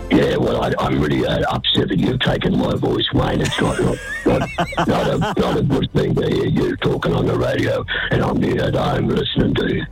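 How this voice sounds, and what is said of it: Raspy smoker-like imitated voice. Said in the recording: “you sound like a pack-a-day smoker there”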